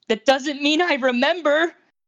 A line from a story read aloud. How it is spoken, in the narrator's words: Izuku shouted back at him